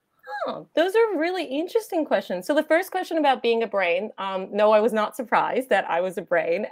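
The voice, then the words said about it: American accent. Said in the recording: “someone that had an accent ... you originally were from America ... having an accent and being from America”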